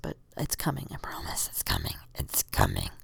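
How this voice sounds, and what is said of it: Growly monster voice. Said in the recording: “It's my monster voice. I don't know why I'm doing monster voice”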